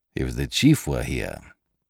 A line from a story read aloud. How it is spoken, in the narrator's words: he muttered